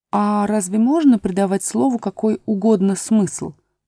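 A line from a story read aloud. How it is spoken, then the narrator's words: Plain. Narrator (Russian): спросила Алиса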